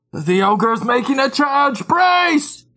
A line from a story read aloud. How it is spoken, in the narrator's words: someone on the wall scream